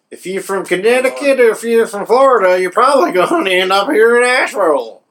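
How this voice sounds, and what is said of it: Southern mountain accent. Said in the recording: “It's a good accent, too. You sound just like a mountain man.”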